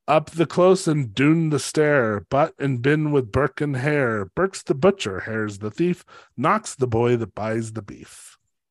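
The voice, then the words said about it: Attempted Scottish accent reciting rhyme. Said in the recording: “I'm not going to be able to do the fucking accent.”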